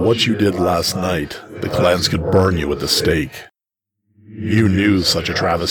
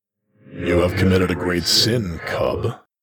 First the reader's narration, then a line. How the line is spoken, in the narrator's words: he growled